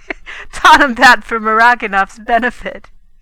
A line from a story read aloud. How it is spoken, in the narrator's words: he gasped